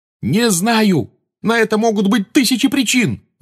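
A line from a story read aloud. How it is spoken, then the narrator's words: Yelling. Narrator (Russian): завопил на нее Гарри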